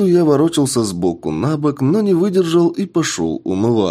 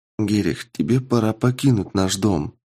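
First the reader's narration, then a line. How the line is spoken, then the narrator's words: Whisper. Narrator (Russian): прошептала хозяйка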